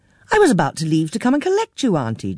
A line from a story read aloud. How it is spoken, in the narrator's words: Jean exclaimed